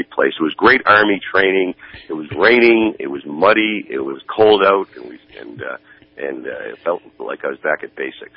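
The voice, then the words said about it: Congested, nasal voice. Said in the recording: “I apologize for my voice... I picked up a tremendous sinus infection”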